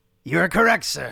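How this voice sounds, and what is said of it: Ed McMahon impression, via Phil Hartman. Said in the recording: “my Ed McMahon imitation ... is actually an imitation of that as from the ... Phil Hartman doing him”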